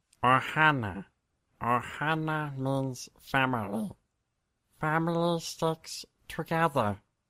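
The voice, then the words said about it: Imitates a cartoon alien's voice. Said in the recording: “your Stitch impression”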